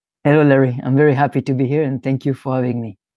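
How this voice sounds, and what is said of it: Charming foreign accent. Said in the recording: “I just love your accent... It's very charming.”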